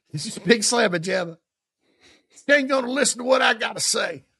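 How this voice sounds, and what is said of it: Put-on Southern accent. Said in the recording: “I do that little Southern accent.”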